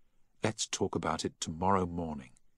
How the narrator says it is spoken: Emma whispered

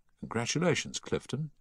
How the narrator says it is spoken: he said softly

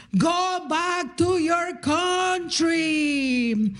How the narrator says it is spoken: he yells at me

